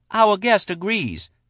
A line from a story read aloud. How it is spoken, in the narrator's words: Shala said triumphantly